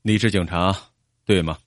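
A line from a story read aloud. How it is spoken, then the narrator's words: Feigned surprise question. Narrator (Chinese): 约翰尼装出吃惊的样子，问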